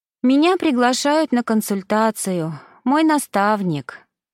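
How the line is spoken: Upset sigh. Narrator (Russian): вздохнула она расстроенно

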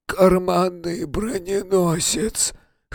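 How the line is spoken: Hoarse, nose pinched. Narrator (Russian): хрипло сказал он, зажимая нос

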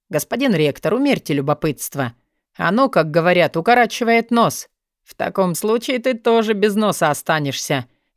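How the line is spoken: Sarcastic snort. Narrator (Russian): язвительно хмыкнул Алви

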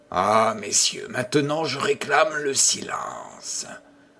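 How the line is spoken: Rough, ringing command. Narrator (French): ordonna l'hôte d'une voix rude et vibrante

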